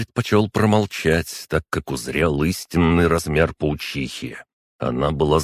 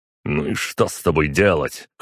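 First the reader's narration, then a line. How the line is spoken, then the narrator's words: Wry snort. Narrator (Russian): хмыкнул я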